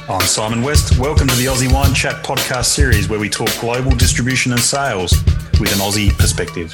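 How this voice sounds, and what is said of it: Australian accent. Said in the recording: “And an Aussie accent.”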